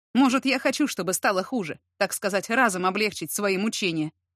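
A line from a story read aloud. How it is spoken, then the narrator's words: Smirking grunt. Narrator (Russian): хмыкнул Ярослав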